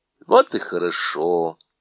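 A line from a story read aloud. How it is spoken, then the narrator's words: Relieved sigh. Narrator (Russian): сказала она вздохнув с облегчением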